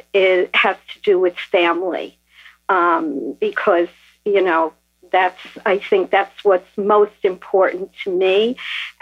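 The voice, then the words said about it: New York accent. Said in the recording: “I deduce from your accent that you might be from New York area”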